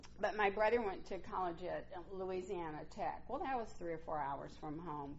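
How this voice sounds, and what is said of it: Mississippi Southern US accent. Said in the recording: “I grew up in Mississippi. Some of you told me you hear that in my voice still. Although at least you can understand what I'm saying now.”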